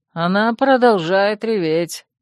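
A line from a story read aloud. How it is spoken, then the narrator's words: Gloomy remark. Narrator (Russian): мрачно заметил подбитый Катир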